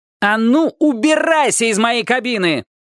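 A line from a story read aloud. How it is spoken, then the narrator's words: Yelling. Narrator (Russian): заорал он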